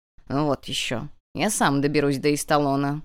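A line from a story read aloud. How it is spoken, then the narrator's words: Stubborn snort. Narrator (Russian): упрямо фыркнул Хирос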